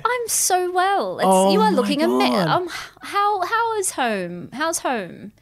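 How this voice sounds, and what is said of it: Affected British accent. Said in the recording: “What's going on with the... With the accent... Oh, my accent... my dad lived in Britain when he was younger”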